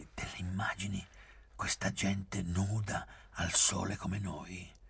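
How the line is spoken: Whispering. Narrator (Italian): bisbigliai

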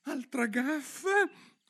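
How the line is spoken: Exclaimed. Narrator (Italian): esclamò

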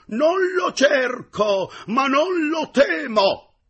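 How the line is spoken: Heroic tone. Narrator (Italian): rispose con tuono veramente eroico

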